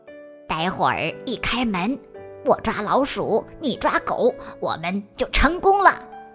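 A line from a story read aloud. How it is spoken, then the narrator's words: Whispering. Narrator (Chinese): 小声的对狮子说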